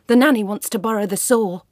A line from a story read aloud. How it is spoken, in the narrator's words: he blurted out